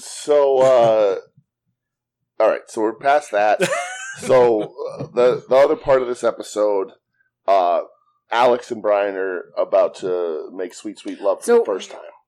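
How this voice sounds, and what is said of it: Strained, worn-out voice. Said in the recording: “my voice wasn't going ... My voice is too shot.”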